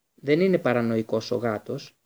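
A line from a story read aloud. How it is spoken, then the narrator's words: Hoarse. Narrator (Greek): είπε βραχνά ο Μπλακ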